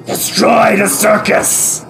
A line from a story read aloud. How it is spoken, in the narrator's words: the Triceratops has let out a bestial rumble